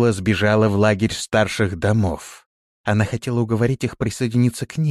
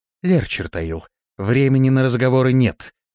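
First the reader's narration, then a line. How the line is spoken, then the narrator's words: Breathless. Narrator (Russian): выдохнула она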